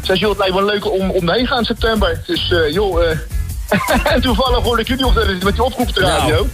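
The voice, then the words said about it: Dutch Hague regional accent. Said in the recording (Dutch): “Je komt volgens mij aan je accent horen, tenminste, een beetje uit de buurt daar. ... ik kom uit Den Haag.”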